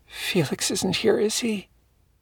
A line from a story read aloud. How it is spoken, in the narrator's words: whispered